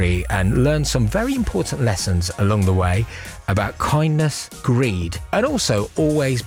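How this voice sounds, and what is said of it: Usual voice. Nothing is said of it.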